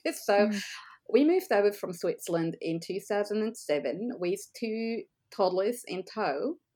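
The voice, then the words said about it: Non-Australian foreign accent. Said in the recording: “as you can hear from my accent, I'm not Australian by birth.”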